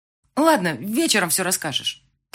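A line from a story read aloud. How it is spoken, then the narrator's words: Hurried, into phone. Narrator (Russian): торопливо сказала Люба в трубку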